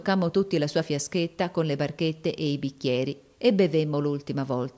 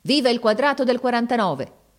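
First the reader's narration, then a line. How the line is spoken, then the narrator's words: Shout. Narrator (Italian): gridò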